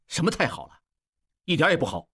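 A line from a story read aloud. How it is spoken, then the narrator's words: Stern. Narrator (Chinese): 应季厉声道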